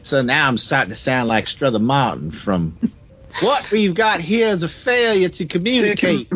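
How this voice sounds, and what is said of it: Southern US accent. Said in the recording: “It's my accent ... It's my southern ... I've picked up the southern gentlemanly accent”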